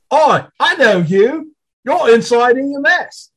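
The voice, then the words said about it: Bad put-on Cockney accent. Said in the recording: “my horrible, horrible Cockney accent”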